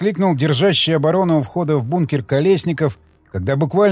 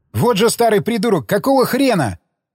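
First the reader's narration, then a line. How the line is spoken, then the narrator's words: Angry shout after someone. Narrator (Russian): крикнул вдогонку Альфтан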